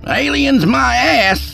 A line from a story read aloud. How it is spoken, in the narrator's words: Skeet hollered